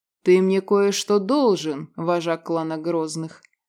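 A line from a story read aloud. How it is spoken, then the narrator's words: Defiant growl. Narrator (Russian): с вызовом прорычал Вольнов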